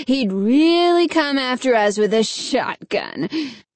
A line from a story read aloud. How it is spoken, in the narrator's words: Alan scoffed